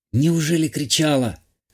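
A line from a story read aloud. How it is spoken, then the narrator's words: Hoarse whisper. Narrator (Russian): Осипшим голосом прошептала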